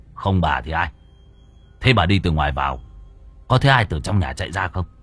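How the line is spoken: Harsh stern voice. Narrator (Vietnamese): Gã gằn giọng

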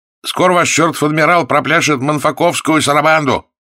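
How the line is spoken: Defiant shout. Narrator (Russian): не боясь быть наказанным за дерзость, он закричал

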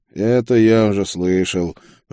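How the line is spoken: Grumble. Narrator (Russian): проворчал я

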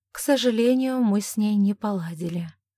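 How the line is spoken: Relieved admission with sigh. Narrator (Russian): призналась она, неожиданно почувствовав небольшое облегчение, и снова вздохнула

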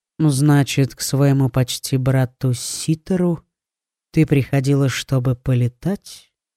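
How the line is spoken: Calm question, young man. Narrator (Russian): спокойно спросил принц

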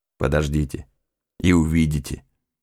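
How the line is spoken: Gruff mutter. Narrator (Russian): буркнул второй помощник

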